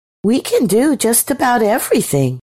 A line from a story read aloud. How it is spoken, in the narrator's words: said Eve cheerfully